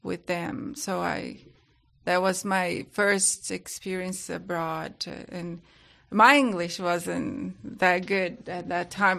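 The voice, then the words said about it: Brazilian accent, sounds somewhat British. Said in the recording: “You can just take that my accent is British, but it's not. It's a Brazilian.”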